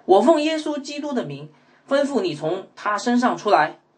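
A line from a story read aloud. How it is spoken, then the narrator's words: Annoyed. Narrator (Chinese): 保罗就心里烦厌厌烦，对那鬼说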